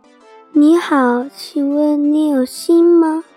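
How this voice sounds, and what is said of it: Crisp clear wooden puppet voice. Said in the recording (Chinese): “小木偶用清脆的声音说”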